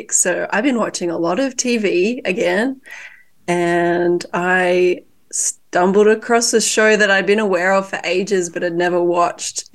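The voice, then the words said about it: Sick-sounding voice. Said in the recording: “as you can hear in my beautiful voice, I've been a little bit sick”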